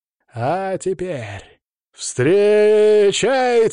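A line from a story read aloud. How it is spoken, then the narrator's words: Powerful booming roar. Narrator (Russian): мощным голосом взревел ринг-анонсер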